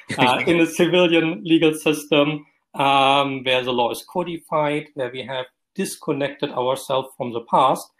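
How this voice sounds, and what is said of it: German accent. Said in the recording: “I was trained in Germany, as you recognize by my accent”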